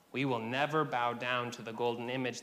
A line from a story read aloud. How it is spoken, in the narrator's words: they said